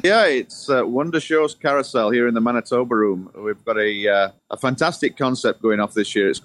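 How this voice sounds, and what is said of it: Yorkshire English accent. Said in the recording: “you have an accent. Is that Irish by chance or Scott? ... this is from right in the center of England. It's Yorkshire.”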